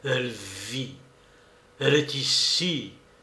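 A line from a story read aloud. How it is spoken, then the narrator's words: Murmur, growing astonishment. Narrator (French): murmurait-il avec un accent d'étonnement toujours croissant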